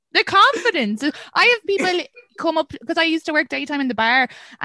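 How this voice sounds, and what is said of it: Mild Irish accent. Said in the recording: “my accent isn't like diddly eyed or like you're not from Ireland ... your accent's not very strong ... This has always been my accent”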